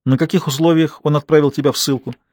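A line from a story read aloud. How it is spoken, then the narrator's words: Sobbing sigh. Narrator (Russian): Аника снова вздохнула, и этот вздох больше походил на рыдание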